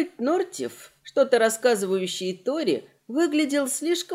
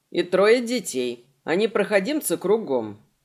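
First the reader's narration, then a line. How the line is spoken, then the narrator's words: Grumbling. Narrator (Russian): проворчал Сент-Ортон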